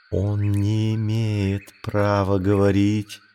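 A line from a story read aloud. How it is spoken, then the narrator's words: Whispered. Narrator (Russian): прошептала Багира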